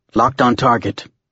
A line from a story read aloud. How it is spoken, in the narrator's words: Tom replied